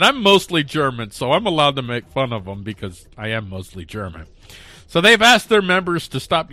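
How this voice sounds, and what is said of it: Usual voice. Nothing is said of it.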